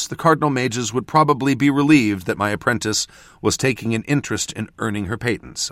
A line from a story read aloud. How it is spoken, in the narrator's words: I said dryly